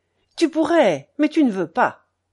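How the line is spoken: Curt, dry. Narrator (French): dit-il sèchement

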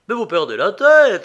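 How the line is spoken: Judge exclaiming, trembling, stunned. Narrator (French): s'écria le juge, tout tremblant de stupéfaction

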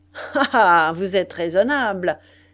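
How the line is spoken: Sneering laugh. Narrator (French): répondit en ricanant

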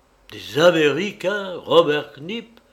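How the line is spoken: Exclaimed. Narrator (French): s'écria Goël

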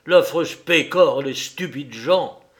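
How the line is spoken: Exclaiming. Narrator (French): s'écria-t-il

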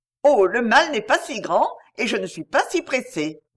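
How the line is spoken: Plain. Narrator (French): dit-elle

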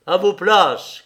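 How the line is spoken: Shout. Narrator (French): cria Dubrovski

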